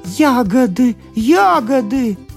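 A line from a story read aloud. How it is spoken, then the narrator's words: Joyful exclamation. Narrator (Russian): радостно прыгала Вивита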